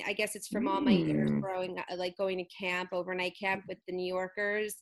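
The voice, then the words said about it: Philly accent with New York tinge. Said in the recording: “I'm very Philly... I have like this Philly, but with a little bit of New York accent.”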